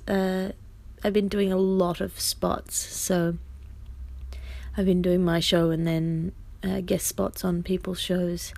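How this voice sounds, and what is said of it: Worn-out, strained voice. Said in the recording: “If you can hear in my voice, ... it's ruining me”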